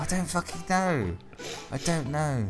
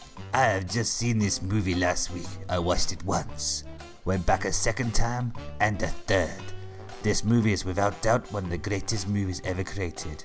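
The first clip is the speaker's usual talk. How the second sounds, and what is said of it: Put-on mid-European accent. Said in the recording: “I'm going to stick to the mid-European accent”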